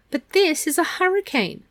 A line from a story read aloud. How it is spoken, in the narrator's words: Meg wailed